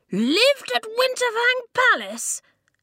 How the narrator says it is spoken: Lofty spluttered

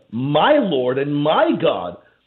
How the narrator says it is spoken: Thomas, the doubting apostle, to exclaim

